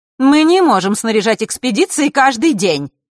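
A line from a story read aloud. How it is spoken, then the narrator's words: Angry reply. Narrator (Russian): зло отозвалась Елена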